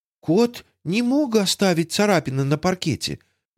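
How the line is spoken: Timid interjection. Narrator (Russian): вмешалась Тося робко

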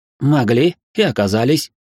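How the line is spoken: Wry snort. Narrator (Russian): хмыкнул я

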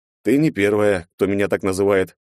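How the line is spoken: Snorting. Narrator (Russian): хмыкнул я

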